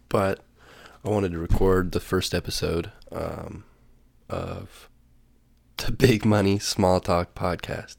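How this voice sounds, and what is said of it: Congested, slightly sick-sounding voice. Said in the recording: “I'm a little sick, so my voice is a little snotty”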